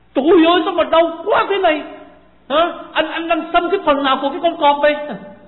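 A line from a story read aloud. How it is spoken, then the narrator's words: Roaring, yelling in pain. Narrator (Vietnamese): cái kim vừa đâm vào trong da của anh mới có một hai phát thì anh gầm lên, la lên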